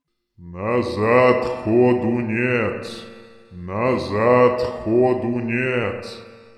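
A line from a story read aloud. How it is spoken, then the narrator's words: Deep, heavy rumbling voice. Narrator (Russian): Прогудел глубокий, тяжелый голос, похожий на рокот закрывающихся дверей склепа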